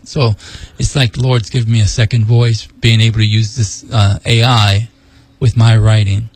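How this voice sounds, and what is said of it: Weak, failing voice. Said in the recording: “as you can tell, my voice gets going out.”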